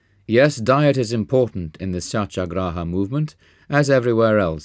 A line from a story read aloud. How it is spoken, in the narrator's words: said with a chuckle